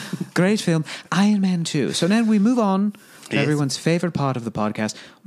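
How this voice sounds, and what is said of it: Usual voice. Nothing is said of it.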